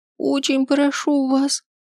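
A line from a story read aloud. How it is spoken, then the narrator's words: Tearful squeak. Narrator (Russian): пищит сквозь слезы Кира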